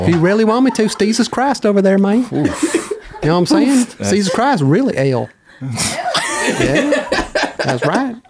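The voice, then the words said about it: Exaggerated put-on southern twang. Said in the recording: “I can do a great southern accent ... Little Kansas City twang right there? ... It has to be a little bit more thick. ... That's like Oklahoma, player. ... it's a little... exaggerated.”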